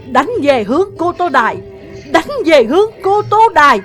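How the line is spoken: Exhausted battle shout. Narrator (Vietnamese): mình đẫm mồ hôi nhưng Ngô Dương vẫn gào thét

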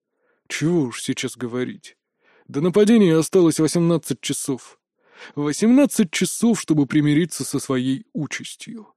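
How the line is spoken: Quiet. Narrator (Russian): тихо произнес Метаморф

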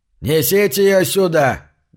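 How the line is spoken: Barked shout. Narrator (Russian): гаркнул Синг

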